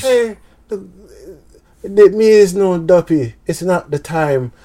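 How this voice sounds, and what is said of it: Put-on Jamaican accent. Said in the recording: “played a Jamaican accent”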